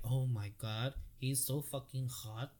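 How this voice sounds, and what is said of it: Put-on stereotyped girly voice. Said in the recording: “She don't have an accent like that. I'm just saying, that's my accent for girls. I would have said that for any girl.”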